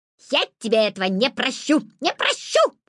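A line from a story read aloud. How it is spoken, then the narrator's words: Magpie shouting. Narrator (Russian): крикнула сорока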